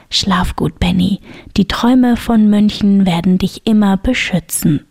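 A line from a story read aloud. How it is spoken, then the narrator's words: Whisper. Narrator (German): flüsterte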